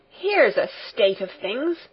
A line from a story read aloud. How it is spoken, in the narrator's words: exclaimed Fräulein Rottenmeier